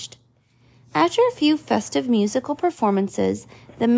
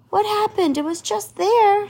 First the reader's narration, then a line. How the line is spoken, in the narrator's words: shouted the mayor